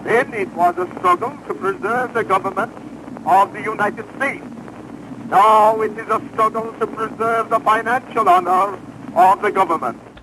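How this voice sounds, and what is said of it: Unusual old-fashioned accent. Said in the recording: “He's got a weird accent.”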